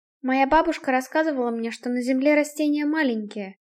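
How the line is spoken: Quiet. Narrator (Russian): тихо произнесла Крита

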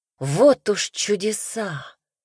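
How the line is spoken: Admiring breath. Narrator (Russian): выдохнула я восхищенно

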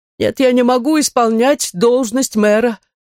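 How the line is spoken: Regretful moaning professor. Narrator (Russian): простонал профессор

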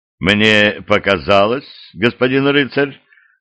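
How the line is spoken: Calm, bishop. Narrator (Russian): спокойно продолжил дерпский епископ

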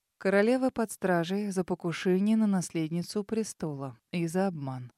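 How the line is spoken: Calm. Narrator (Russian): спокойно ответил Себастьян

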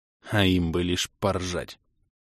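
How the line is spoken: Angry hiss, snort of laughter. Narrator (Russian): Зло прошипел я и невольно фыркнул от подкатившего смеха

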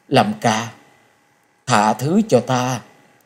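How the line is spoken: Hoarse voice. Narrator (Vietnamese): giọng khàn khàn nói

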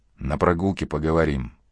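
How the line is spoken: Whisper. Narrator (Russian): Косяков прошептал

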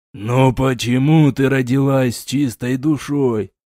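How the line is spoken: Roared, king. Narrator (Russian): взревел король

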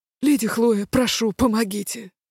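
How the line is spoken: Rasped. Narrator (Russian): прохрипел

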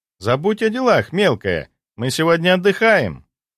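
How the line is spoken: Cheerful. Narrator (Russian): весело произнесла Настя

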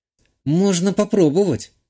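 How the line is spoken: Uncertain, smiling. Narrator (Russian): неуверенно улыбнулась Жанна

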